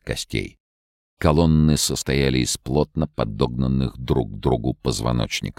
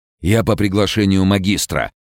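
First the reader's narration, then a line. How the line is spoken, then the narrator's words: Shout. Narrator (Russian): крикнул им Анри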